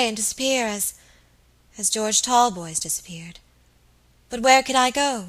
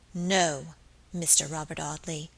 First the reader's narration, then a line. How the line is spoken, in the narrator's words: she said aloud in a low, clear voice